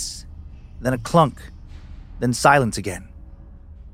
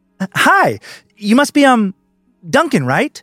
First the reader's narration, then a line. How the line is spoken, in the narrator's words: She asked, her voice bubbly and forced, like she was trying to mimic a receptionist from a YouTube skit